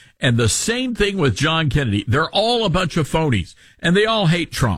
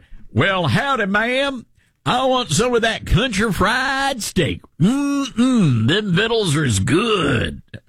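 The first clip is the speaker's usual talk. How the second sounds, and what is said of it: Exaggerated Southern country accent. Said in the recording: “I have a Southern accent ... You're Southern. You're not that Southern ... No, you don't talk like that.”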